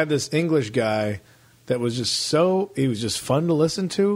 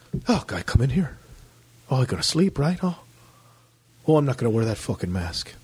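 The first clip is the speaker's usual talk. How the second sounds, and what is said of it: Imitated Irish or Liverpool accent. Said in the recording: “I can't do the accent. Sounds more Irish than anything. I thought he was Irish from Liverpool.”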